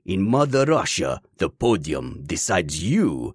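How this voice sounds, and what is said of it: Bad put-on Russian accent. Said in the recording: “forcing me to do a horrible accent”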